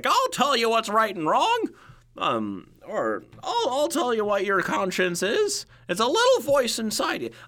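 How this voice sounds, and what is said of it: Poor cartoon cricket character voice. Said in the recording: “doing a horrible impression of Jiminy Cricket, but I'm trying”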